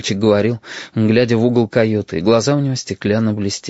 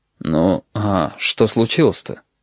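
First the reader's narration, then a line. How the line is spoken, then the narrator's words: Quiet. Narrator (Russian): негромко сказал пассажир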